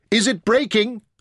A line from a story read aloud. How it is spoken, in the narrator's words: Taita shouted